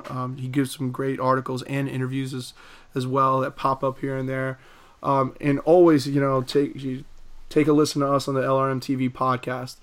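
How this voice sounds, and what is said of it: Raspy, hoarse voice. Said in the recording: “raspy voice. I've been battling a little laryngitis for the week”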